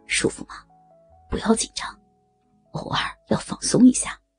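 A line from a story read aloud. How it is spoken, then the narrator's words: Gentle, soothing. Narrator (Chinese): 温柔的说着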